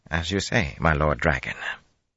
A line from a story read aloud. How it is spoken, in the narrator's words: murmuring